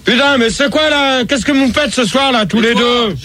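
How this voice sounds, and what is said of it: Shouting. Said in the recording (French): “moi tu cries ... tu cries”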